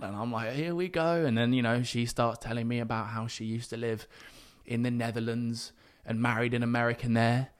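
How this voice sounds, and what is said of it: British accent. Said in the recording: “my accent, especially because I'm British... That's a beautiful accent.”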